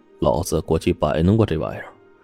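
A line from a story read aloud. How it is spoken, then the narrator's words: Lowered voice. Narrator (Chinese): 顾四压低嗓门说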